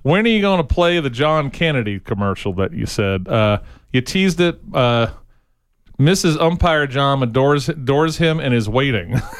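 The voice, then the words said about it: Bad Carolina accent. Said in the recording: “I'm doing my bad Carolina accent”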